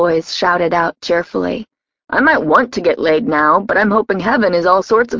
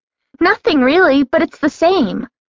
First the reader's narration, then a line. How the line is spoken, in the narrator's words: she piped up brightly